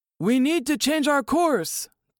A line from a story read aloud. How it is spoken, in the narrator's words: De Beer's father shouted